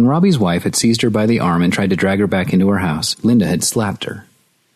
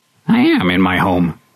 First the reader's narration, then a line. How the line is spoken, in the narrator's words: Linda had shrieked back